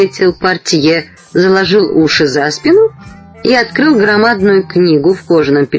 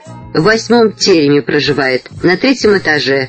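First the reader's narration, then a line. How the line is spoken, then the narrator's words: Plain. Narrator (Russian): сказал портье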